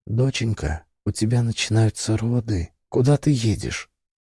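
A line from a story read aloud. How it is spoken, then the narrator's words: Quiet woman's voice. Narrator (Russian): женщина тихо сказала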